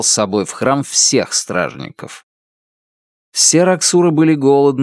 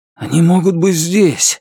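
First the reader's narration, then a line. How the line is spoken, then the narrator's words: Breathless. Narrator (Russian): выдохнул Эссом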